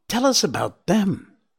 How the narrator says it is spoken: exclaimed Feline, unable to control herself

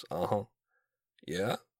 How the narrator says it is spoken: reduced me to mumbled affirmations

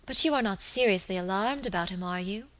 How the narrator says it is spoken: asked my lady anxiously

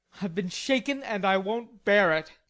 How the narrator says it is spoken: growled Laurie indignantly

